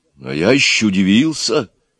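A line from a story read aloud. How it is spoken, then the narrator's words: Bewildered. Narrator (Russian): растерянно говорил Егор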